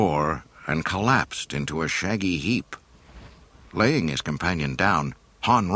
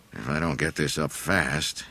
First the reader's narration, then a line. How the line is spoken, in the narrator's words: he grumbled to himself